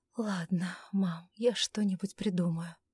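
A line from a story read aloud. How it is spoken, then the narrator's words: Sighing. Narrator (Russian): вздохнула Августа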